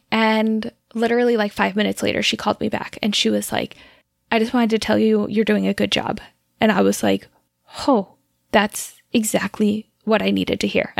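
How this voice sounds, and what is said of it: Teary, emotional voice. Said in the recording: “I'm like actually getting teary telling that story”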